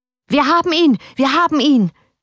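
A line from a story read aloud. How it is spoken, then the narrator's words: Shout. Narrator (German): schrie er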